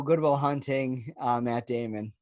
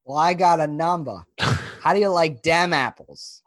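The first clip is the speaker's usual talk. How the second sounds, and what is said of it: Put-on Boston accent. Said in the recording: “that's as good as my Boston accent”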